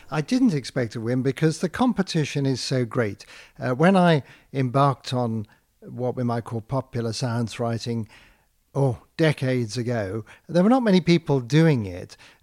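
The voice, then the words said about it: British accent. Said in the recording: “As you can tell from my accent, I'm British born”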